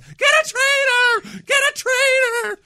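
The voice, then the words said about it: Screaming in a childlike prepubescent voice. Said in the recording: “I started screaming ... in my prepubescent voice”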